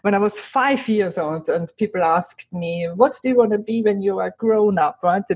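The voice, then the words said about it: Speaks with a foreign accent. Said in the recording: “my accent”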